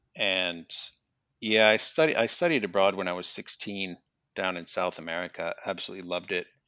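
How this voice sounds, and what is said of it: American Midwestern accent. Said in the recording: “as you can probably tell from my accent, I'm originally from the United States. I'm from Minnesota.”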